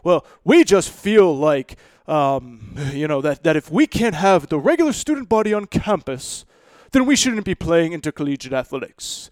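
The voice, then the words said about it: Badly done put-on accent. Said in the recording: “that was a terrible accent”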